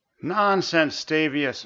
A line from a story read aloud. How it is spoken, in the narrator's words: Urtish sighed